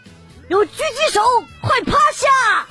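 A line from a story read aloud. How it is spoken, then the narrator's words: Loud shout. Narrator (Chinese): 一个二货大喊了一声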